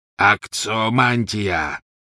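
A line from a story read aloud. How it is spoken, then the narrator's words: Roar. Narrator (Russian): проревел пожиратель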